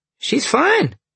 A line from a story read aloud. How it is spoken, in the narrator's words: Dalen said happily